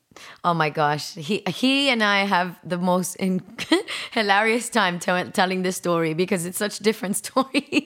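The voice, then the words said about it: Cuban twang in her accent. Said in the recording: “you've still got your Cuban twang to you, definitely”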